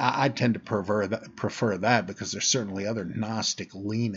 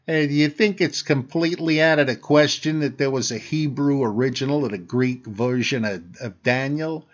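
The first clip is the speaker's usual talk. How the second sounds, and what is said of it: Put-on Chicago accent. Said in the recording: “Any accent is fine, the sillier the better ... how about uh, Chicago?”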